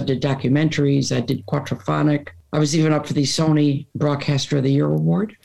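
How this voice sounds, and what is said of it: Raspy radio voice. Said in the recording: “raspy voice. That's a good radio voice”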